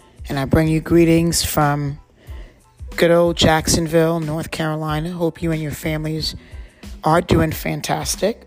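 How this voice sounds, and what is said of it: Slightly raspy voice. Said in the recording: “my voice is a little uh, raspy this morning. Um, I think it's allergies.”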